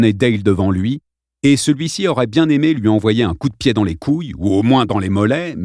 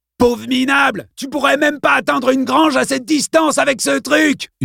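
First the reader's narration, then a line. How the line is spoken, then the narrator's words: Screaming, spluttering. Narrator (French): hurla Kongden en postillonnant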